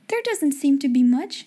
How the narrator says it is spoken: she answered, half laughing

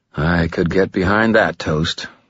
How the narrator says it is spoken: the rest of us muttered

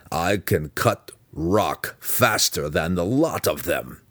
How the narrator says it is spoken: the Burrowwoman growled fiercely

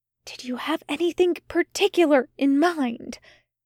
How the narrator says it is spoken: Aziraphale whispered

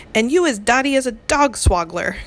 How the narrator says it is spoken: cried the bobbler

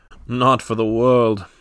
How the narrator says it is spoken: cried with a gesture of horror

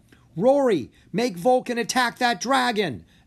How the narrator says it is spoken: Echo yelled

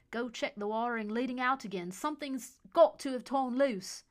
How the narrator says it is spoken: he barked at Howard

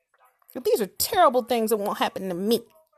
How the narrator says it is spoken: Simon exclaimed

